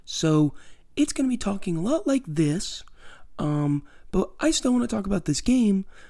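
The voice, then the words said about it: Low, strained voice, nearly lost. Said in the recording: “I'm going to be talking a lot lower than normal, because I lost my voice ... You can tell from the way I'm talking ... close to the mic, sounds low”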